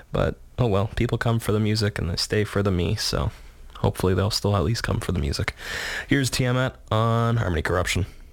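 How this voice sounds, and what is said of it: Shaky voice, recovering from cold. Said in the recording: “I'm kind of just getting over a cold, so my voice is still kind of shaky ... keeping things a little quieter than usual tonight”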